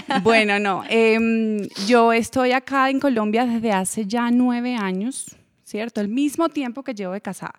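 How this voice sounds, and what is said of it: Venezuelan Spanish accent with paisa tinge. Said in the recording (Spanish): “me van a sentir el acento venezolano paisa”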